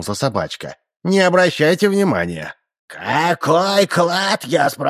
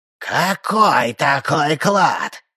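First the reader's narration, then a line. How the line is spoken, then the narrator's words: Flat yet menacing question. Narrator (Russian): спросил он безгливо, но тем не менее грозно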